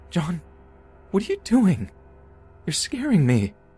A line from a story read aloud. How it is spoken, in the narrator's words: said in my terrified voice